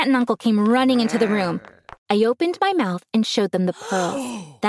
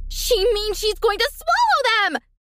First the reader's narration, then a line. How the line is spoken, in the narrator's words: Cecilia screamed